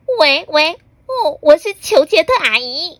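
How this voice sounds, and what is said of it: Pinched-nose fake female voice. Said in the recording (Chinese): “他会捏着鼻子，假装是女生的声音说”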